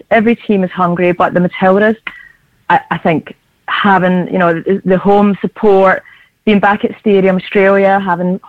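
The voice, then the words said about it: Strained, struggling voice. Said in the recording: “I will definitely sound a little bit different. My accent is still the same. It's just the voice. And the voice that's struggling a little bit today.”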